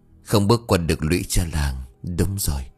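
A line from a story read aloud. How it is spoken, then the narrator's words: Soft muttering to herself. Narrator (Vietnamese): chị Hai chỉ khẽ lẩm bẩm một mình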